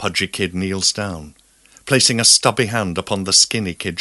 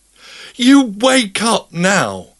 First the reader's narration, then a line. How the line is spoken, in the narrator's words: yells the pudgy kid